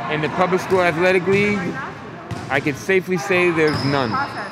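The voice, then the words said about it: Brooklyn accent, muffled. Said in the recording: “a Brooklyn accent that gets a little muffled by his mask”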